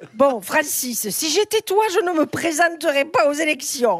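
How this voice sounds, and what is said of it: Put-on Italian accent. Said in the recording (French): “ça, c'est l'accent italien.”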